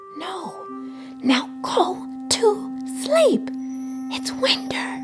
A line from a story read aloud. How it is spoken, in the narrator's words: Chippy, dazed, promptly whispered